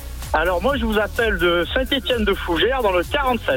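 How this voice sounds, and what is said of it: Sing-song southern French accent. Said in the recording (French): “t'as un beau petit accent chantant”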